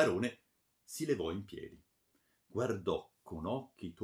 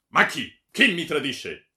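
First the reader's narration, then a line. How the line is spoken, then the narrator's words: Shouted. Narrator (Italian): gridò il barone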